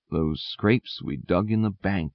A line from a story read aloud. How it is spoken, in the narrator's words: whispered Buckthorn to Dandelion